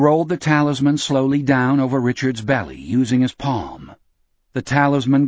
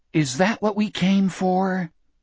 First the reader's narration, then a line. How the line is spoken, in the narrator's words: Richard whispered